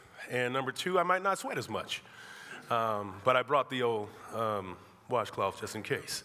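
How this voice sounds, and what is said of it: Scratchy, subdued voice. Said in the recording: “as you may already be able to tell by my voice... If I sound a little scratchy, I'm a somewhat subdued. Been battling... a little cold”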